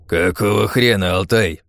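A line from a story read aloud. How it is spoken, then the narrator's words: Growling. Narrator (Russian): рычал мастер-сержант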